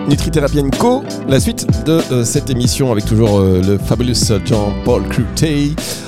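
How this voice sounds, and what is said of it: Put-on British English accent. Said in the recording (French): “mon petit accent anglais ... prendre un accent british”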